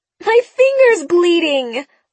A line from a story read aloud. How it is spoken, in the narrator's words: wailed Sabrina